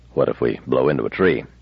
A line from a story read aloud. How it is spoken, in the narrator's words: Bailey muttered